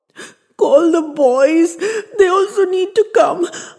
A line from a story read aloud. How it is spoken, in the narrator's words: I gasped out